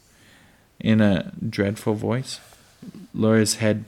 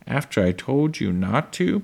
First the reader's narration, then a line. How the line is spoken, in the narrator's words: Pa said, in a more dreadful voice